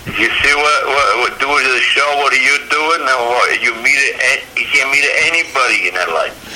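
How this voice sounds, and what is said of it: Strong Italian accent. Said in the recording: “you have a strong Italian accent”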